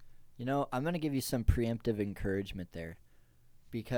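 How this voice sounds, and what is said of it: Usual voice. Nothing is said of it.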